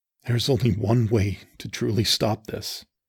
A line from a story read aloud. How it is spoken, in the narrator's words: I said softly